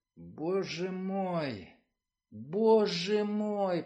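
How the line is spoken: Groaned. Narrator (Russian): простонал Кован

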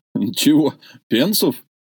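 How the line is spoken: Laughing. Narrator (Russian): рассмеялся дядя

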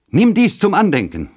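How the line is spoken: Exclaiming. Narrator (German): rief sie aus

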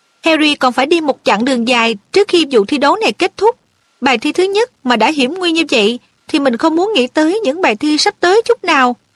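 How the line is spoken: Girl, serious tone. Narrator (Vietnamese): Cô bé nghiêm nghị nói

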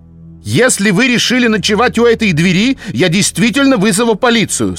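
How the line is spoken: Loud. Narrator (Russian): сказал он громко

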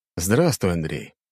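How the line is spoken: Emperor's tired smiling greeting. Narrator (Russian): император устало улыбнулся

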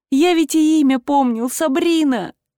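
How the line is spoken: Sobbing. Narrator (Russian): Бог всхлипнул

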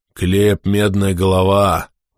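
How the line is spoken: Breathless exhale. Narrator (Russian): выдохнул Скули

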